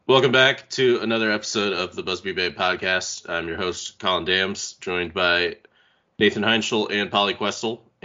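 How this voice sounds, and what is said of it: Congested, sick-sounding voice. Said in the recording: “if I sound a bit congested, it's because I am ... your sick voice”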